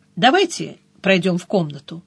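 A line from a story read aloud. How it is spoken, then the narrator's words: Calm request. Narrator (Russian): попросил спокойно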